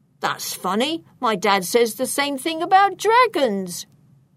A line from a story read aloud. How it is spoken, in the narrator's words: replied Achilles, and they both burst out laughing